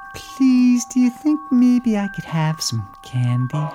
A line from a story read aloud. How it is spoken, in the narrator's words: Wilton smiled and once again asked sweetly